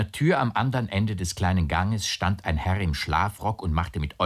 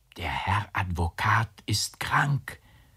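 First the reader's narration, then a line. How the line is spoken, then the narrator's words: Whisper. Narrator (German): flüsterte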